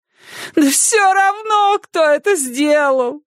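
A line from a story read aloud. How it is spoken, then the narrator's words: Sobbing. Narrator (Russian): всхлипывала она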